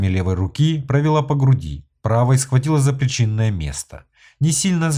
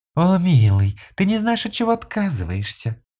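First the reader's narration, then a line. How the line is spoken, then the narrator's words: Flirtatious cooing woman. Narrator (Russian): кокетливо проворковала женщина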